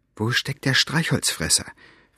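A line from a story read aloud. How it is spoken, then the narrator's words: Whispered. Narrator (German): flüsterte Elinor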